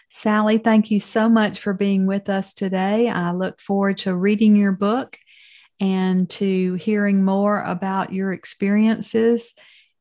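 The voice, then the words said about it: Southern American accent. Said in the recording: “you do have a Southern accent”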